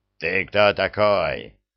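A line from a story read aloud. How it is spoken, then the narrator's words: Barking thug. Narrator (Russian): рявкнул громила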